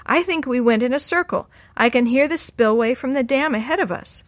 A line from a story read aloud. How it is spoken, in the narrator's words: Sammy yelled from up ahead